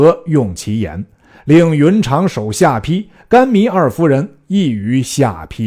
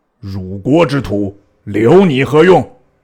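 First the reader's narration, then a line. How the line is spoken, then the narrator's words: Angry scolding. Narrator (Chinese): 操怒骂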